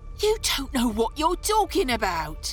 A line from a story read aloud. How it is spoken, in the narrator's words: cried